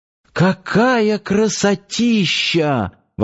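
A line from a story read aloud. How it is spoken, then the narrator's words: Delighted breathless exclamation. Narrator (Russian): восторженно выдохнула Надя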